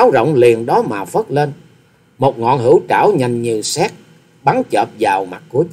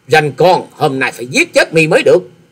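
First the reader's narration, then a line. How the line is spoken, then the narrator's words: Loud angry shout. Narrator (Vietnamese): hét to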